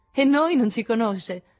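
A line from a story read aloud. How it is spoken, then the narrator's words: Laughing, breaking off abruptly. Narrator (Italian): cominciò Joe ridendo e arrestandosi di colpo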